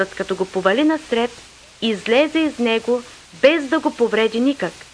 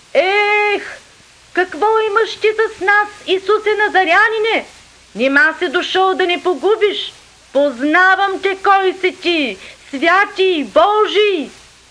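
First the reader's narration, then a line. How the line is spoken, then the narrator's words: Possessed man, loud cry. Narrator (Bulgarian): човек, хванат от духа на нечист бяс, и той извика със силен глас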